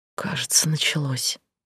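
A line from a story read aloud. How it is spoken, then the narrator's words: Nurse whispering. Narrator (Russian): прошептала нянька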